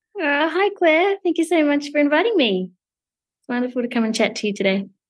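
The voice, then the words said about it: Australian accent. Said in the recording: “fellow Aussie practitioner, which is always a nice accent for us fellow Aussies to hear”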